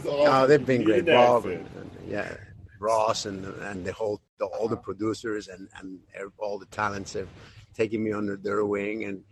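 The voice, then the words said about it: Non-native English accent. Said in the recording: “I'm different... You need an accent... understand my English”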